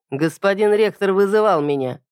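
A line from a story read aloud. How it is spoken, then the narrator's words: Mocking. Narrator (Russian): произнес насмешливо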